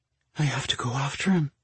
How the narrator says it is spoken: she whispered

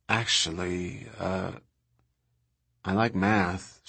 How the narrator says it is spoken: she said in a sort of guilty voice

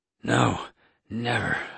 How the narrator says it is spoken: I wheezed

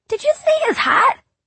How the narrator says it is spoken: Drew asked squeakily

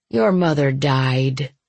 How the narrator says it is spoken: he said sadly

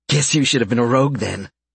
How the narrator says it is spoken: Franz said

